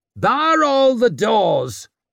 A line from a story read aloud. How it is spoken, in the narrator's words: she shrieked